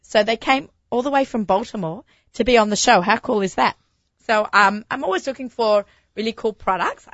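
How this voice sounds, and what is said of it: Croaky, hoarse voice. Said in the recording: “I hear my voice is a little croaky. ... I had a really bad cold last week.”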